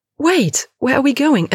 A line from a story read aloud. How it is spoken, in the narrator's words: Lena is leveraging all of her weight against Kara's grip, shrieking